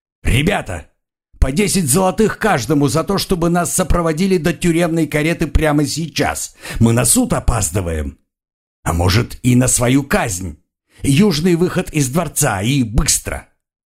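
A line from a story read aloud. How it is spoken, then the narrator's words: Barking. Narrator (Russian): один из узников рявкнул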